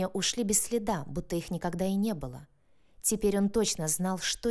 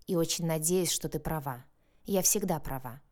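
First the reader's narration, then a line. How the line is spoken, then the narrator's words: Grumbling. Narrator (Russian): проворчала Марго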